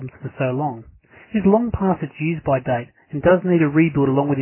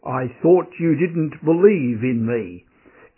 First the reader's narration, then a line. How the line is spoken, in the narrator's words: a booming voice came down from the clouds